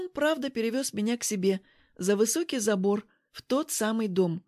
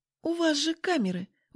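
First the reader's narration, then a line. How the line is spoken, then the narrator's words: Reproachful sighing speech. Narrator (Russian): укоризненно сказала, вздохнув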